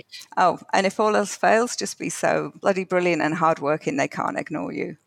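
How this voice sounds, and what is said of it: Northern English accent. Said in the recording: “It sounds like a real Northern England thing to say. I love your accent.”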